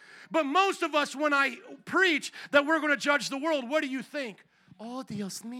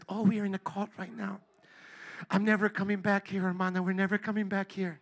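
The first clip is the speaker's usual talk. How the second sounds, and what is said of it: Soft-spoken voice, slight Latino accent. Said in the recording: “the soft-spoken person that just has a hint of a Latino accent.”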